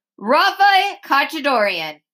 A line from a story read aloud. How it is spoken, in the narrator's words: Stricker shouted after me